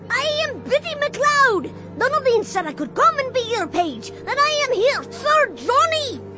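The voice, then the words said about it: Piping child's voice, thick accent. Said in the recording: “His piping voice came out of the hubbub ... The accent was thick”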